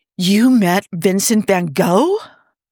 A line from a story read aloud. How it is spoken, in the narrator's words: Niall exclaimed in a heated whisper